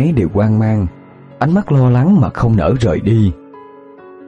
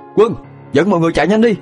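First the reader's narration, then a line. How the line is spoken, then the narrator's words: Hurried loud shout. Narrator (Vietnamese): vội hét lớn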